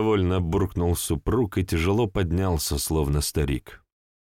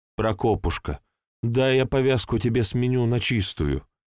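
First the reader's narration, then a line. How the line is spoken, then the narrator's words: Pleading. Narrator (Russian): взмолилась жена, просительно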